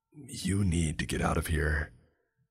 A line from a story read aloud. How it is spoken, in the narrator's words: Mason lowered his voice down to a whisper and said